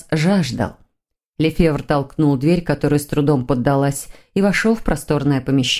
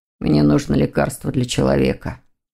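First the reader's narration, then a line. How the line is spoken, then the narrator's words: Mumbled. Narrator (Russian): пробормотал Лефевр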